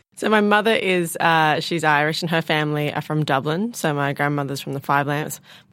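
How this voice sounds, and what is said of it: Australian accent. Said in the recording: “your lovely Australian accent”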